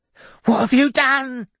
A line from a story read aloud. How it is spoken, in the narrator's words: yelped Billy